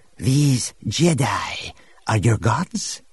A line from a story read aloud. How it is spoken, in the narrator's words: Harar asked